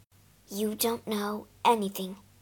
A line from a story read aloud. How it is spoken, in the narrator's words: she muttered